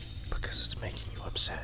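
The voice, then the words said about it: Whispering. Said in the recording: “keep whispering? ... I'm lackadaisically whispering”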